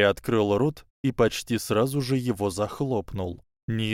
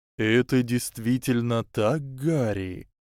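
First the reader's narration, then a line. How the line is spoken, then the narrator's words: Slow drawl. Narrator (Russian): медленно протянул Дамблдор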